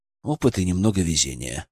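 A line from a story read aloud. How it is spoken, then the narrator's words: Even-toned reply. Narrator (Russian): ровным голосом ответил я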